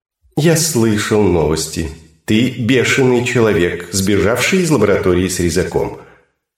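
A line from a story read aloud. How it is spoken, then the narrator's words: Calm statement. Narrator (Russian): сообщил кубарь спокойно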